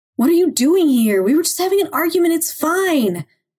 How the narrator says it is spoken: Gavin shouted through the glass

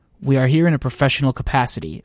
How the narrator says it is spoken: I said

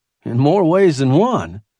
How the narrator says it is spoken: added dryly

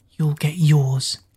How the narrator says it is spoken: Kira whispered

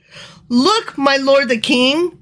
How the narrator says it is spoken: Gehazi exclaimed

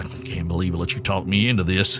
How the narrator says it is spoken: he grumbled back

